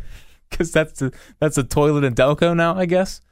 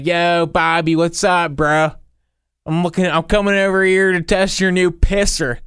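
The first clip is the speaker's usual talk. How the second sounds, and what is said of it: Put-on Delaware County Philly accent. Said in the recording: “Was that close to a Delco accent? I thought it was pretty good.”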